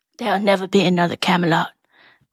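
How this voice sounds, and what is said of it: Natalie Portman as Jackie O impression. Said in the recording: “my impression of Natalie Portman doing Jackie O. My impression of an impression.”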